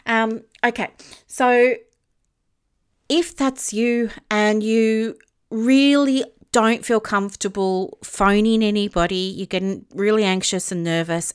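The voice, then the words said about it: Out of breath. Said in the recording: “sorry, I'm out of breath because I'm so passionate about this”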